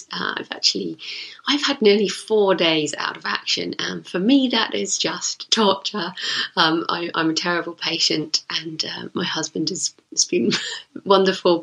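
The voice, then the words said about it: Sick-sounding voice. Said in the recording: “you can probably hear in my voice, I have been a bit sick the last few days”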